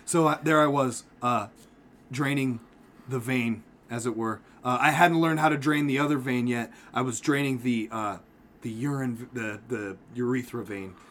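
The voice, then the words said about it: Calm public radio narrator voice. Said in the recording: “I'm actually going to use my NPR voice on this one”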